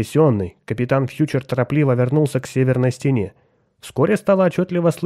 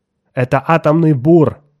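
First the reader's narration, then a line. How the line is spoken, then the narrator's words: Exclamation. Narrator (Russian): воскликнул Кертис Ньютон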